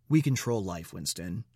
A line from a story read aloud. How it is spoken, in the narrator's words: O'Brien said